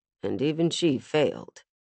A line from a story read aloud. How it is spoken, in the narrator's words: Hero muttered